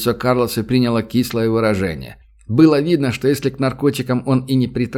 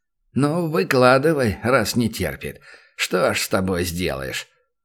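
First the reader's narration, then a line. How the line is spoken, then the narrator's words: Sigh. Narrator (Russian): вздохнул президент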